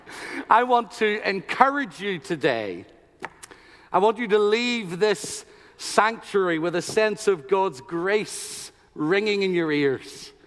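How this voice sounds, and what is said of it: Irish accent. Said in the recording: “the best English in the world is spoken in Trinity College in Dublin, which is about an hour away from where I was born ... get used to this accent”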